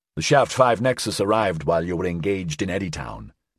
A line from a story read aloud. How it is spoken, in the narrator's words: Chisholm said